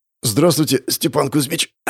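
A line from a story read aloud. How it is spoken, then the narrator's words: Hoarse wheeze. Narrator (Russian): Прохрипел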